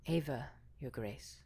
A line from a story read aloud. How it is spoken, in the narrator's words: she declared softly